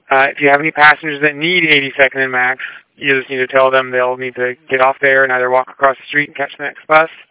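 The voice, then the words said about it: Very fast speech. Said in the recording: “you're talking so fast, I can't even understand you.”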